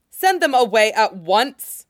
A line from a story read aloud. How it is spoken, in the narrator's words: Cultivator OBB snaps